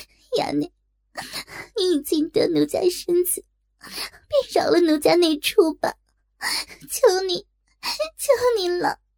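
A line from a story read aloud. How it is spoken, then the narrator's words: Desperate crying plea. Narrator (Chinese): 若真大急，粉脸羞红耳根，哭道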